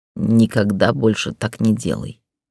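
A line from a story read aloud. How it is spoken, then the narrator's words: Growl. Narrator (Russian): прорычал он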